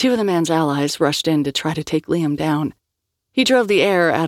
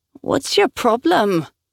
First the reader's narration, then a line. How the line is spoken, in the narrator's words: whined one of the purifiers